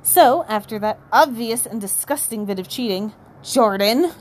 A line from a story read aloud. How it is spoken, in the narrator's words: growled Professor McGonagall